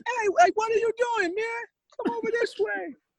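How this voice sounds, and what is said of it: Imitates another person's voice. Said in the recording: “I used to love doing him... once I got his voice down”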